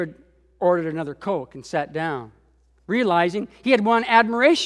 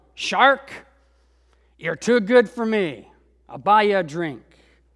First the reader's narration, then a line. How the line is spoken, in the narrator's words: the big man snarled